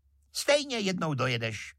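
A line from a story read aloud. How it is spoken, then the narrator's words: Sharp shrill shout. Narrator (Czech): křikla ostřicovým hlasem víla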